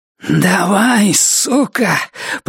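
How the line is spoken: Growled. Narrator (Russian): прорычала она

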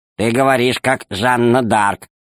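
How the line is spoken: Plain. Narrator (Russian): сказал маленький Р

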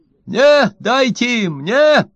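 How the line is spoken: Shouting from the door. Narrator (Russian): кричал от двери Ложкин

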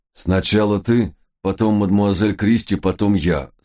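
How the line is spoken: Command through clenched teeth. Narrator (Russian): сквозь зубы приказал месье Ренар

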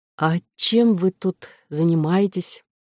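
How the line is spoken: Soft, almost cheerful. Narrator (Russian): Голос у Коры звучал мягко, почти жизнерадостно, словно у внучки старого мастера, который в одиночестве вырезает из дерева модели фрегатов

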